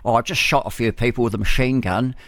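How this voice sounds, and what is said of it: Put-on British accent. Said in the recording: “he wouldn't have spoken with a Pommy accent, though, would he?”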